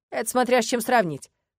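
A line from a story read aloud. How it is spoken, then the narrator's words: Snorting. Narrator (Russian): хмыкнул Арни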